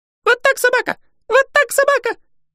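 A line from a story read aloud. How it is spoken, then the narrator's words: Squeaky. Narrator (Russian): пищал Юми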